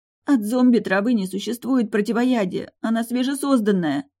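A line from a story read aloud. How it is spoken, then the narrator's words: Sobbing. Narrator (Russian): всхлипнула Дара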